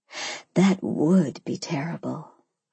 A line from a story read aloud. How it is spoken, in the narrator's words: I whispered